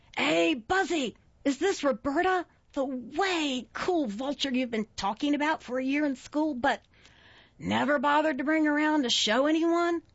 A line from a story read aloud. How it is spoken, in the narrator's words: The strong, raspy voice belonged to Caroline